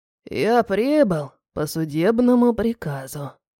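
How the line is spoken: Creaky voice. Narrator (Russian): проговорил он скрипучим голосом

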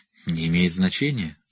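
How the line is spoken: Embarrassed mumble. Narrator (Russian): смущенно пробормотал Рек

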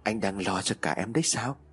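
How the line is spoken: Soft laugh, speaking. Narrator (Vietnamese): Trinh khẽ cười rồi nói

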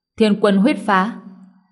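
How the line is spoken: Charming shout. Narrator (Vietnamese): Tử Dao yêu kiều hét lên

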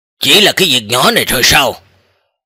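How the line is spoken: Cold question. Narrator (Vietnamese): Tô Ly Kinh lạnh lùng hỏi

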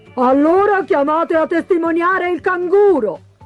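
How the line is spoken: Shouted. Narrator (Italian): gridò il pellicano

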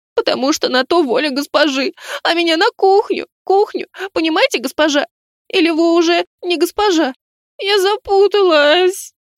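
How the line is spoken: Louder sobbing. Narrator (Russian): Она еще громче зарыдала

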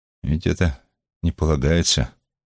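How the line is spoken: Hesitant, almost timid. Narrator (Russian): После некоторой паузы Иосиф сказал, и его слова прозвучали почти робко

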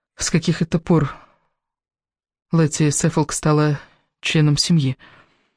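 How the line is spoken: Whisper. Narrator (Russian): прошептала Элис, заметив возле стола свою соперницу

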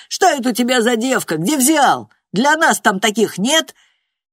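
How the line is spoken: Shouting. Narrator (Russian): его знакомые кричали

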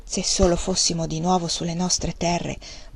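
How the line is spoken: Murmured. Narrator (Italian): mormorò

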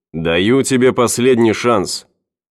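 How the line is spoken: Shouted. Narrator (Russian): он крикнул

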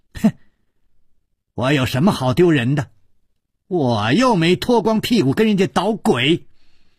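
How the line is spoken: Loud shouting. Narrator (Chinese): 他大声地叫着

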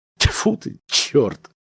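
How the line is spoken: Muttered. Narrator (Russian): пробормотал охранник

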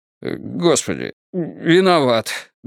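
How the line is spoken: Helpless, forced out. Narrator (Russian): беспомощно выдавил Страйк

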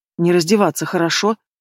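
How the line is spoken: Curt mutter. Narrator (Russian): буркнула девчонка

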